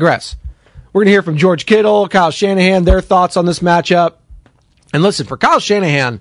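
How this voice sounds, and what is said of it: Usual voice. Nothing is said of it.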